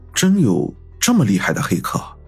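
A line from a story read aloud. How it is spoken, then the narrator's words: Murmuring to oneself. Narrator (Chinese): 云峰喃喃自语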